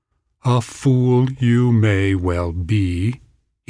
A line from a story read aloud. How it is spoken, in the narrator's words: he said slowly